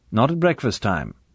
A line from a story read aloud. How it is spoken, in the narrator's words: said Bond firmly